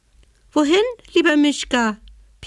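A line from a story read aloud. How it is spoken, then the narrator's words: Squeaky animal voice. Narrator (German): piepste die Haselmaus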